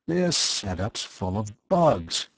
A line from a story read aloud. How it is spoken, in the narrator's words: he muttered